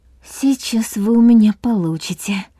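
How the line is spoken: Muttered under breath. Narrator (Russian): пробормотала Нина себе под нос

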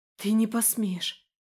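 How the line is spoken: Breathless, self-persuading. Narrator (Russian): выдохнула она, кажется, уговаривая себя

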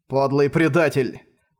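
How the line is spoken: Menacing growl. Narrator (Russian): угрожающе прорычал Манхао

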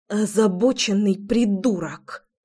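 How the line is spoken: Said through teeth. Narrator (Russian): процедила она

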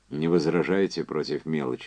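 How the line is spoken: Plain question. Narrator (Russian): спросил Энди

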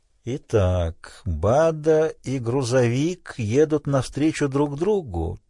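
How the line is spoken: Quiet. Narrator (Russian): тихо произнес Питер Фунгабера

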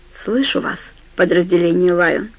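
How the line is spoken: Plain. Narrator (Russian): сказал Старки

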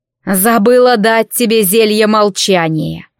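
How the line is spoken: Mother grumbling. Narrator (Russian): проворчала ее мать

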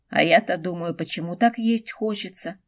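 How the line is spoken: Hungry grumbling. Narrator (Russian): пробурчал Хунсинь, словно сутки не ел

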